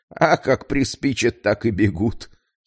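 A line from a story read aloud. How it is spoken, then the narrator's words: Giggling. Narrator (Russian): хихикнул врачеватель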